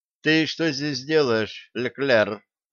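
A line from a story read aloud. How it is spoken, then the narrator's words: Plain question. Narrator (Russian): спросила Сесси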